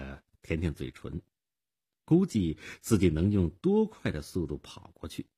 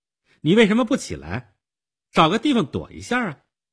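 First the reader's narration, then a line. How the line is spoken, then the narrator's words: Girl's stern question. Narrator (Chinese): 少女厉声地问道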